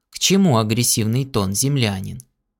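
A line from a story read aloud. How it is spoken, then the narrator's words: Calm old man. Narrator (Russian): Седовласый старик спокойно ответил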